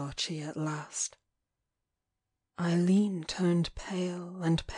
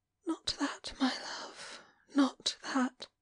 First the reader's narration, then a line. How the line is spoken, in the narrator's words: she whispered